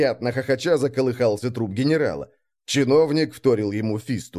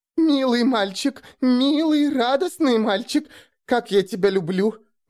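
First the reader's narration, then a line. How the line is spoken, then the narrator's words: Ecstatic shriek. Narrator (Russian): восторженно взвизгнула Авдотья Игнатьевна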